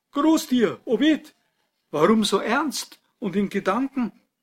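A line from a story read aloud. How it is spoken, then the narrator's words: Sudden call. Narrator (German): rief plötzlich jemand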